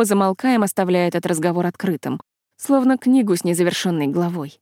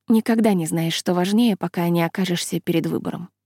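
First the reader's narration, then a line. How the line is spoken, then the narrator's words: Soft reply. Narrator (Russian): мягко отвечаю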